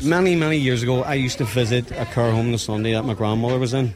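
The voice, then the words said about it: Strong Northern Irish accent. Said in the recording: “I can never figure out the accent. It's a great accent”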